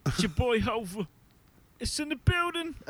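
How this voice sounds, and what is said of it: Imitates another person's voice. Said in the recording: “I have a Jay-Z impression ... That's awful. ... I didn't realize how bad it was until you put on mic. ... No, it sounds great.”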